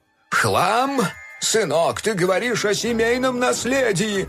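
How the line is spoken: Yelling. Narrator (Russian): завопил док

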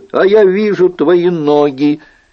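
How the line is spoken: Shouting. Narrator (Russian): Генрих крикнул

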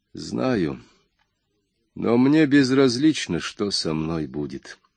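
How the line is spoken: Calm. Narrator (Russian): спокойно сказал Джордж

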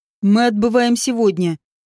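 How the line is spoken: Steely tone. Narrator (Russian): стальным тоном произнес

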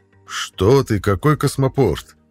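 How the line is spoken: Exclamation. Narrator (Russian): воскликнул хранитель маяка

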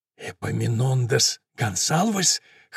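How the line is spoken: Hoarse rasp. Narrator (Russian): хрипит Галь

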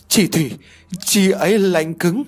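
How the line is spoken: Stammering, shaken. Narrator (Vietnamese): Cô lắp bắp nói

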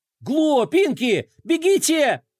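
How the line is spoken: Shouted. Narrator (Russian): закричал Флай

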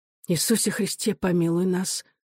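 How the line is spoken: Soft whisper, mother. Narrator (Russian): тихо прошептала мать

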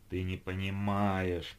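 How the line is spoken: Groaning. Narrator (Russian): простонал Геннадий

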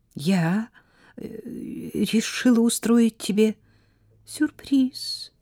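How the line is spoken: Trembling, holding back tears. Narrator (Russian): проговорила Сара дрожащим голосом, едва сдерживая слезы возмущения и унижения

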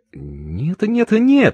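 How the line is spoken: Madam's exclamation. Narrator (Russian): воскликнула мадам

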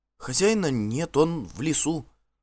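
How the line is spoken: Timid woman's voice. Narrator (Russian): робко подала голос одна из женщин

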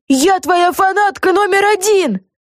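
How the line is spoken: Yelling into ear. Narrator (Russian): заорала ей в ухо Люси

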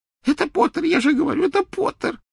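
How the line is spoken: Sobbing. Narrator (Russian): всхлипывал Ксенофилиус

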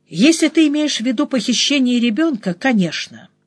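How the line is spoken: Calm reply. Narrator (Russian): ответила я, втайне поражаясь своей способности говорить спокойно

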